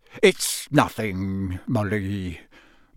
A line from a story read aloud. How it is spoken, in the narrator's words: mumbled Mr